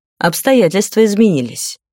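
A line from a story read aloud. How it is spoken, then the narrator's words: Calm explanation. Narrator (Russian): спокойно пояснил тот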